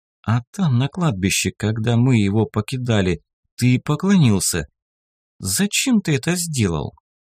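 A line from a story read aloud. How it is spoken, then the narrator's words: Hesitant. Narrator (Russian): как-то неуверенно начала она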